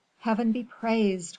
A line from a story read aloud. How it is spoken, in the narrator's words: cried Aramis